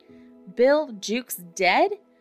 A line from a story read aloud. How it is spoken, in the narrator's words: cried the startled pirates